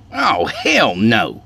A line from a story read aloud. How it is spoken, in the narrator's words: Skeeter scoffed